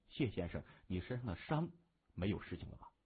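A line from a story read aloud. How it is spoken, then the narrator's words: Low, concerned question. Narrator (Chinese): 他压低声音，非常关切地问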